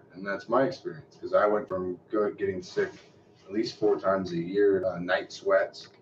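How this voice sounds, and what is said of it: Deep voice. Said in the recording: “get my deep throat. Deep voice.”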